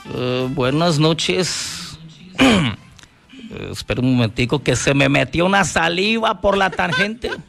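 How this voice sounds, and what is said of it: Imitates another person's voice. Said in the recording (Spanish): “A ver, ¿cómo es la imitación de Petro?”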